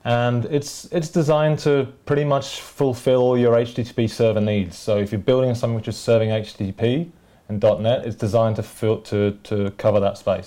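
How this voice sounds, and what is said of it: British accent. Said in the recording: “you have a fun accent. ... UK.”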